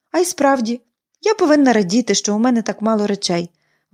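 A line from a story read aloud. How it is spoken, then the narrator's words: Exclamation. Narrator (Ukrainian): вигукнула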